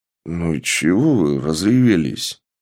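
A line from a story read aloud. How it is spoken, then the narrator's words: Sighing. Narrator (Russian): вздохнул мужчина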